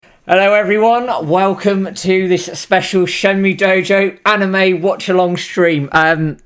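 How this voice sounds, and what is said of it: Excited, hyped-up voice. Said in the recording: “You can probably hear it in my voice, I am hyped to hell for this.”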